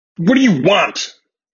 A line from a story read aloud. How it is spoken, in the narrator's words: he yelled out